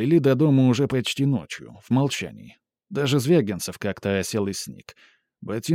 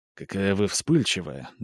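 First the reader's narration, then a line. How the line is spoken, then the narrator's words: Quiet, close speech. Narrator (Russian): говорил Сменцев, тихо наклонившись к ней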